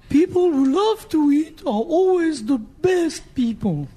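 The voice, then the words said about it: Julia Child impression accent. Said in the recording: “How do you think Julia would feel about that accent?”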